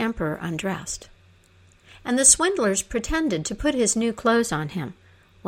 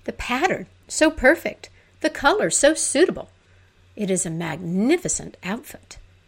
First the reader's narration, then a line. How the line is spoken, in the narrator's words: From all sides, the nobleman cried